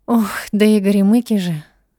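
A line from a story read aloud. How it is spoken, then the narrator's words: Sighing woman. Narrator (Russian): вздохнула она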